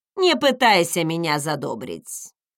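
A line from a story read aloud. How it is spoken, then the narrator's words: Grumbling. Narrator (Russian): проворчала она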